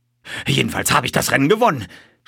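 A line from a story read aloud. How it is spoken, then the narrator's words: Colonel gasping out words. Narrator (German): stieß der Oberst keuchend hervor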